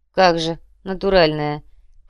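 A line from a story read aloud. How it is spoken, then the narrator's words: Snorting. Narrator (Russian): фыркнул Кумар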